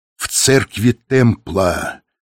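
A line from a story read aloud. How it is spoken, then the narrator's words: Drawled, angry, disgusted. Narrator (Russian): протянула Софи, и в голосе ее звучали гнев и отвращение к предателю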